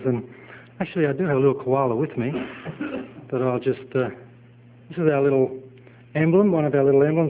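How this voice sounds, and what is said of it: Australian accent. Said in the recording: “in Australia ... so it reminds you where I'm from. I'm sure the accent's enough”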